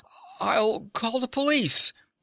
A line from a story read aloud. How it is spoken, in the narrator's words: he gasped